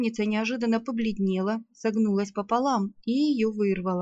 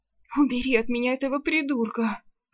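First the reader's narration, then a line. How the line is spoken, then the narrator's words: Moaning. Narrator (Russian): простонала она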